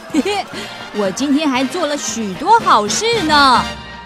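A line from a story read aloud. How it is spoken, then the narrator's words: Loud, proud. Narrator (Chinese): 长颈鹿先生好得意，他大声说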